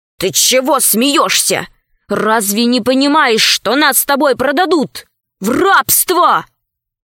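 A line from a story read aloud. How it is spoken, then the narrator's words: Angry question. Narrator (Russian): Пашка сердито спросил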